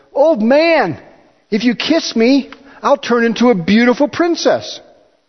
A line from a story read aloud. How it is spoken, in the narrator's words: a frog called out to him and said